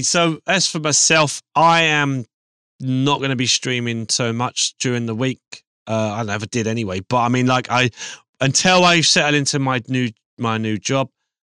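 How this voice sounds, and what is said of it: Hoarse, raspy failing voice. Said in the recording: “my voice has started to go, coming. It's been coming and going a lot. ... It sounds like I'm on 70 cigarettes a day.”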